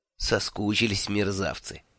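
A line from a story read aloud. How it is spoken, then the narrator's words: Tender. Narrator (Russian): нежно сказал я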